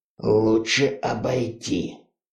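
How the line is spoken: Biker whispering. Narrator (Russian): прошептал байкер

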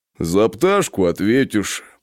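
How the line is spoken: Deep bass voice. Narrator (Russian): пробасил гриф

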